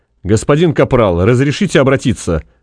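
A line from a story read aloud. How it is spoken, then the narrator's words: Bark. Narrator (Russian): рявкнул он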